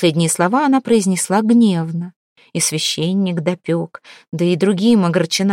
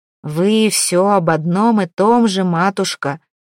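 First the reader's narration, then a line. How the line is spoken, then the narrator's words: Grumbling. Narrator (Russian): ворчал Святослав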